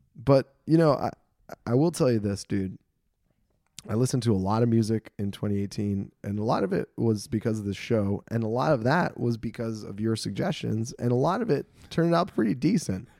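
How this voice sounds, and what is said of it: Raspy, choked-up voice. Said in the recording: “his voice is raspy, not because he's sick, because he's choked up”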